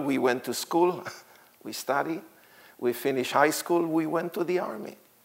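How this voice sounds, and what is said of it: Israeli accent, not American. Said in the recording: “I was born in Israel and grew up in Israel. You can hear my accent. It's a bit different from the American people here.”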